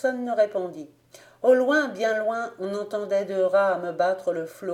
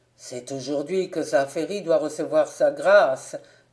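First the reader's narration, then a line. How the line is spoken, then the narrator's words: Sudden hoarse old man. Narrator (French): s'écria tout à coup le vieux maître de poste d'une voix enrouée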